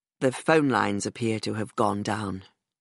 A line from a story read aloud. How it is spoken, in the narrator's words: he said quietly